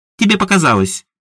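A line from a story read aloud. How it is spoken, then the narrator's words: Snorting girl. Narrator (Russian): фыркнула девчонка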